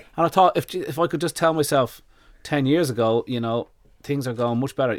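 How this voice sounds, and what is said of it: Dublin Irish accent. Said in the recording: “this is a Dublin accent ... I end up with a Dublin accent”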